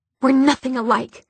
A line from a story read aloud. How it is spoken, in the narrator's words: she spat